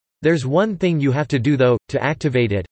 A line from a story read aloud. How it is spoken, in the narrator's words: said